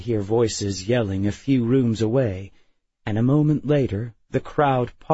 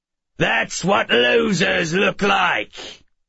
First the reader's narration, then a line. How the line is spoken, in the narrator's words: the man on the chair bellowed